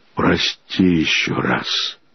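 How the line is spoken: Barely audible whisper. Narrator (Russian): прошептал он еле слышно

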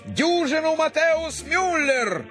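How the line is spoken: Shouted. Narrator (Russian): Но ему крикнули

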